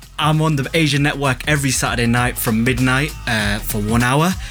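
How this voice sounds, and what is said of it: Leeds English accent. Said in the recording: “I'm from Leeds, which I'm probably, you can tell by my voice”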